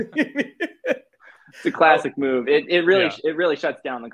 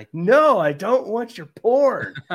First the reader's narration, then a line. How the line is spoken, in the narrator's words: David left, just shouting that